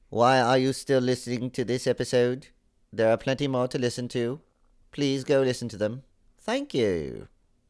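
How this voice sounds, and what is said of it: Rough put-on British accent. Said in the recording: “Here's a British accent-ish.”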